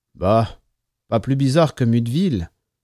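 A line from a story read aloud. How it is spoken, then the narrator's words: Driver's jaded voice. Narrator (French): dit le conducteur d'une voix blasée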